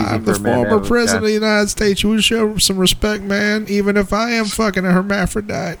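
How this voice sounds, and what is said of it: Imitates another person's voice. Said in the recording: “impersonations”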